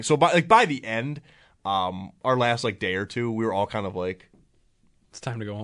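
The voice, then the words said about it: Congested, stuffy voice. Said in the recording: “You can probably tell by my voice, I'm a little congested”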